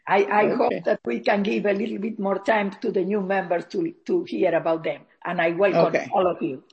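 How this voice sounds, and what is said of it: Strong accent. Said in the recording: “you will notice me by my terrible accent”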